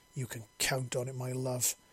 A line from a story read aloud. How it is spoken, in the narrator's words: snarled